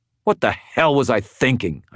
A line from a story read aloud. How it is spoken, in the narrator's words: I snarled